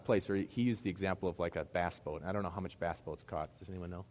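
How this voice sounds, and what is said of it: Midwest American accent. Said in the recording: “you're hearing my Midwest accent as I say boat. I can't even say it the right way.”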